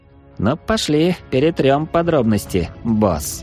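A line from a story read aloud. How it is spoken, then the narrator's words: Snort. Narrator (Russian): хмыкнул разбойник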